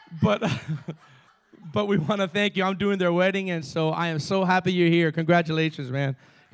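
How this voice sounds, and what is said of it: Cuban accent. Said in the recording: “my Cuban self ... I have a Cuban accent, too.”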